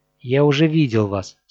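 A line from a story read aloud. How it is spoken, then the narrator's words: Plain. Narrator (Russian): сказал я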